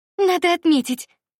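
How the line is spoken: Exclaiming. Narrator (Russian): воскликнула Варя

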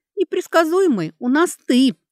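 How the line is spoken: Laughing. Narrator (Russian): засмеялась Алекса

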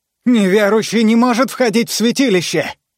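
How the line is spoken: Shout. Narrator (Russian): выкрикнул Василий

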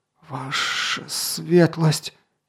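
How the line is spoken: Astonished wheeze. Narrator (Russian): изумленно просипел Барбак

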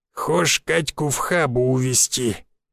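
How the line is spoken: Creaky old man's voice. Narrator (Russian): проскрипел дед

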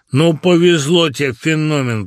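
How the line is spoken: Deep bass voice. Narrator (Russian): пробасил Маслюкин

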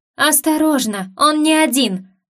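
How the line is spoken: Slightly hysterical shout. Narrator (Russian): выкрикнула я, надеясь только на то, что моя легкая истерика не слишком отвлечет Айдена

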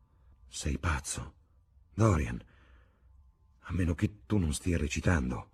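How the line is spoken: Frowning murmur. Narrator (Italian): mormorò Hallward accigliato

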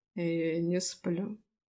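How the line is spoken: Slightly hoarse voice. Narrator (Russian): Голос его звучал хрипловато

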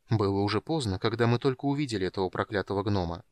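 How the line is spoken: Quiet. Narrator (Russian): тихо проговорил Полин

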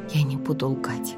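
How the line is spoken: Whisper. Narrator (Russian): прошептала я

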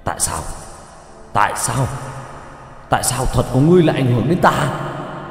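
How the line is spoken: Roar. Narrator (Vietnamese): Hắn gầm lên

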